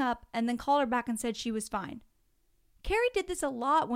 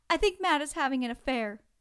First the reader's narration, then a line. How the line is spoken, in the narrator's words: sobbing and said